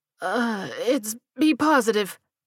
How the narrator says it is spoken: he stammered

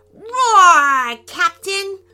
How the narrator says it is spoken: Luca roared

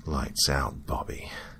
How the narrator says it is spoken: whispered

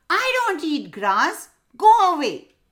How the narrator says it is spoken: The parrot yelled

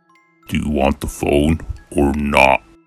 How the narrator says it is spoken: the man said in a deep and dark voice

